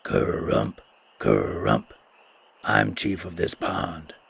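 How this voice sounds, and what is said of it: Hoarse croaking frog voice. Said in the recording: “replied a hoarse voice”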